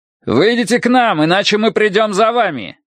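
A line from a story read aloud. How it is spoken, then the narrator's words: Shout. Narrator (Russian): крикнул офицер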